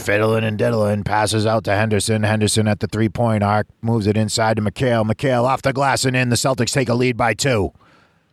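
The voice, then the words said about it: Raspy sports announcer impression. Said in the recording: “He had this really raspy voice because it sounded like he smoked filterless Pall Malls ... That's an awful... your impression is probably terrible.”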